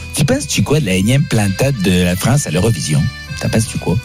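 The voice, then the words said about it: Put-on Quebec French accent. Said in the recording (French): “je vais te poser des questions avec l'accent québécois”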